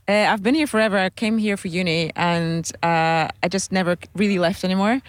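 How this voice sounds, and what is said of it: Pleasant foreign accent. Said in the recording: “You have this gorgeous accent.”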